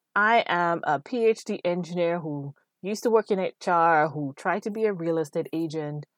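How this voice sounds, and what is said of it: West Indian accent. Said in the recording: “I'm from the West Indies with a strange accent that comes and goes when it wants, how it wants.”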